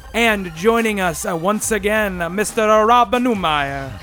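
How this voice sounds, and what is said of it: Put-on Italian accent. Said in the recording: “I don't know why I did an Italian accent.”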